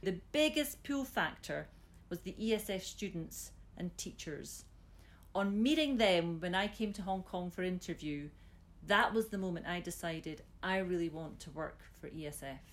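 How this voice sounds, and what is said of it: Scottish accent. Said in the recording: “you've managed to keep your Scottish accent, by the way, far better than I've kept mine”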